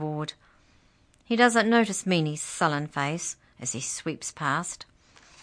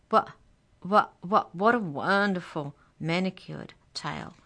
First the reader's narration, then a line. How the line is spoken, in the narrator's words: he stammers